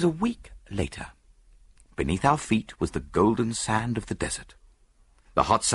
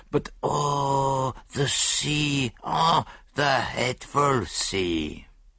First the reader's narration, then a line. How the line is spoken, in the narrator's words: he groaned